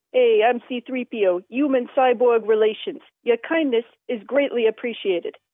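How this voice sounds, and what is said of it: Sarcastic New York-style delivery. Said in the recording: “sort of like Bronx used car dealers ... It was more of a sarcastic line.”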